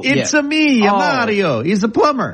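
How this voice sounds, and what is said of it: Mock Italian accent, Mario impression. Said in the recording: “Are you making fun of the Italian accent?”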